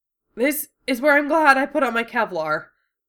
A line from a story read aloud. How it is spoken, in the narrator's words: Duo gasped, face white with shock and pain